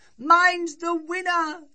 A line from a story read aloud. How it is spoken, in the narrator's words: she cried